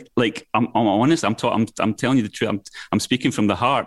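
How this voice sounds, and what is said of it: Scottish accent. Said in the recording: “I'm talking to you in a different accent right now than I would to somebody that I was speaking to in London ... I'm now talking in my Scottish accent for you.”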